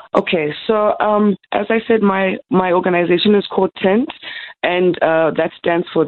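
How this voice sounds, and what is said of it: Raspy voice. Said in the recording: “My voice is a bit raspy”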